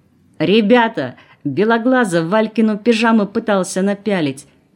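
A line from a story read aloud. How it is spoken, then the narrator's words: Loud yell. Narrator (Russian): заорал на весь вагон Колосов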